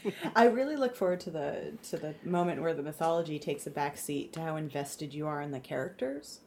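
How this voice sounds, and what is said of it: Sarcastic delivery. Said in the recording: “I'm being sarcastic.”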